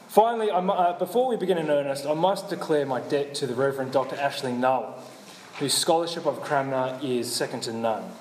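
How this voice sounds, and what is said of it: Australian accent. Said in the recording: “my Australian accents”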